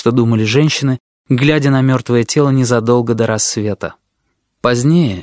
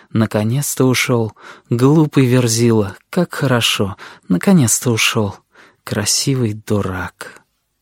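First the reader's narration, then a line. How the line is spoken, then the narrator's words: Whispered. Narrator (Russian): шептали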